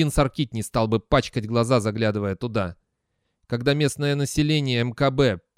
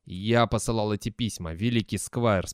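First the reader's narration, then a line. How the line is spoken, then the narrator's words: Calm. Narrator (Russian): спокойно произнес Терренс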